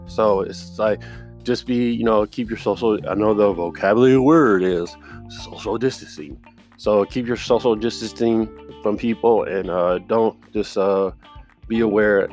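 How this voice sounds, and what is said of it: Stuffy, congested voice. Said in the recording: “You can hear from my voice. It's a little stuffy”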